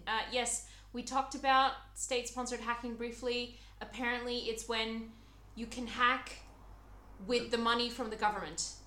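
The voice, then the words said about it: Slightly American-sounding accent. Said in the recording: “someone who left the comment saying that I had an American accent from Wish... I sound a little bit American”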